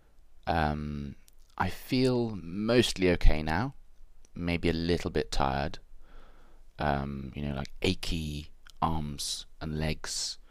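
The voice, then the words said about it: Strange, weird-sounding sore-throat voice. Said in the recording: “it's a sore throat. So my throat really hurts. And that's why my voice sounds so strange ... it sounds so weird”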